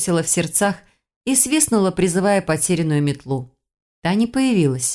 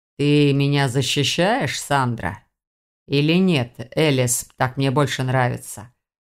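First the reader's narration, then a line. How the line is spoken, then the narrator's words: Purring giant cat. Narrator (Russian): Мурлыкнул огромный кот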